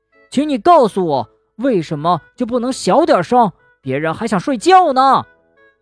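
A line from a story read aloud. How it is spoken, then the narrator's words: Sudden loud shout. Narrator (Chinese): 蹦蹦突然大声喊道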